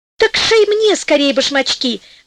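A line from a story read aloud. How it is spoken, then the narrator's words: Fairy exclaiming. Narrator (Russian): воскликнула фея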